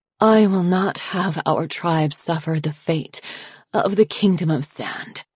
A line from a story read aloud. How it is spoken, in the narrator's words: Glacier breathed between spasms of coughing